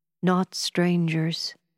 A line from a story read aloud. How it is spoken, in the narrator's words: he answered, his voice trembling a little